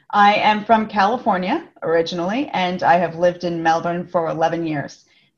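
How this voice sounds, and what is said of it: Californian American accent, not Australian. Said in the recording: “that's not an original Australian accent ... you will never lose the California girl from me ... Why would you want to lose that that voice?”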